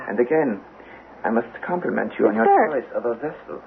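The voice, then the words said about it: German accent. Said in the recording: “The German accent.”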